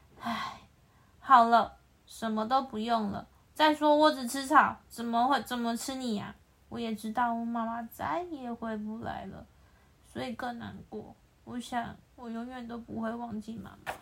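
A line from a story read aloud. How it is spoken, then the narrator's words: Sighing. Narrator (Chinese): 羚羊叹了气说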